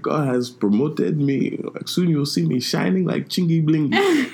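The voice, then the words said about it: Put-on Nigerian accent, old dad. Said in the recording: “I was doing my Nigerian accent. I was pretending to be an old Nigerian, like, dad or something.”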